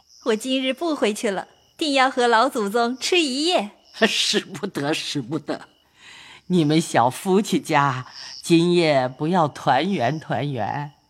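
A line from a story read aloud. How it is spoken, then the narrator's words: Laughing. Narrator (Chinese): 尤氏笑道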